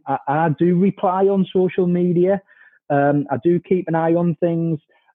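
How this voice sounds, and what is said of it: Northeast English accent. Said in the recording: “you can obviously tell by my accent, you know, I'm from the Northeast”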